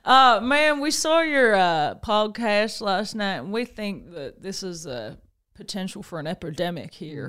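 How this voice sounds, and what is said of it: Put-on Texan accent. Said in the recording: “I don't know why they're from Texas, but it's fine. Everything's better in a Texan accent.”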